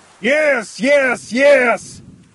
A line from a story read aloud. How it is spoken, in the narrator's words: Cornelius shouted